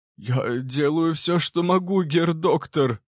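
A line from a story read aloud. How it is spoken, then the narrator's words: Trembling voice. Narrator (Russian): дрожащим голосом ответил Крафт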